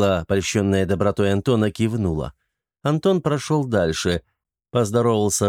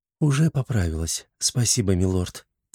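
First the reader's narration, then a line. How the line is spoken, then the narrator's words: Quiet woman's voice. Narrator (Russian): тихо произнесла женщина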